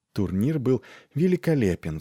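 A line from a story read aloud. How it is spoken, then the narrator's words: Sighing. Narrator (Russian): вздохнула она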